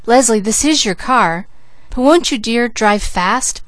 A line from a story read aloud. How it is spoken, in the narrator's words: begged Mrs